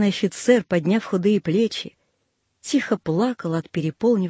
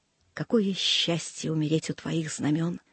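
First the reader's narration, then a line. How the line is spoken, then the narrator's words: Whisper. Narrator (Russian): прошептал он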